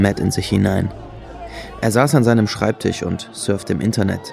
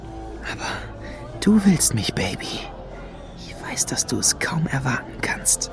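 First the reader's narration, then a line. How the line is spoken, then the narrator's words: Whispered. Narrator (German): flüsterte er Lady Luna zu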